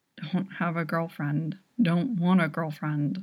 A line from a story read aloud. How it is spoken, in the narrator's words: His eyes are half open when he mumbles